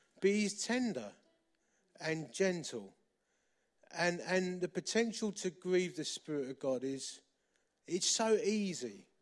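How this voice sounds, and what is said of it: Romford (East London/Essex) accent. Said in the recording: “a bloke who's built like a fridge with a Romford accent”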